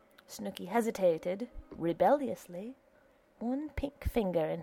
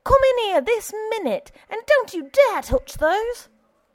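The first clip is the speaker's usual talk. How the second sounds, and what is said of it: Shrill high-pitched angry voice. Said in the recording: “shrilled a high voice ... A voice of horror and of wrath.”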